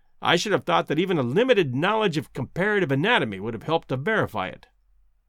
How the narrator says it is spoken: said Summerlee, bitterly

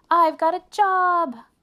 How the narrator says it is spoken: cried Arthur

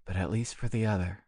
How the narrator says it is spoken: murmured Gerard

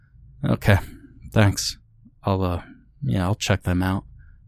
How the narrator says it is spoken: Christopher replied flatly

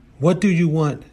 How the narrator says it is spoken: screamed as she closed her eyes tightly

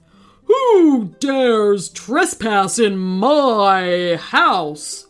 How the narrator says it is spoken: boomed a voice

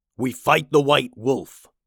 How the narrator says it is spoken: growled Pilsen

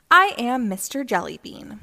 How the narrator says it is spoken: he said

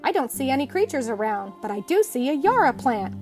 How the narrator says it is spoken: exclaimed

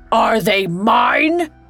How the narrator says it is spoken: he bellowed

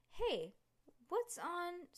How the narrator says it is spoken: Stink cried

